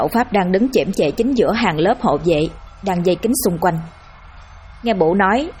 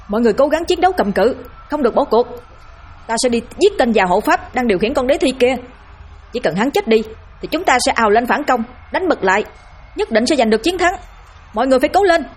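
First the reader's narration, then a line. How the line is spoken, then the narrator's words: Straining loud shout. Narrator (Vietnamese): Bổ cố gào giọng hét thật lớn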